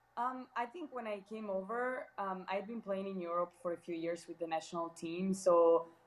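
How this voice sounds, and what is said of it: Foreign accent, sounds Italian or Spanish. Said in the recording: “I guess they do guess I'm Italian or Spanish ... I think my accent keeps a good clue of where I'm from”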